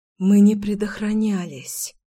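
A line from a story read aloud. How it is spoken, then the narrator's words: Breathless exhale. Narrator (Russian): выдохнула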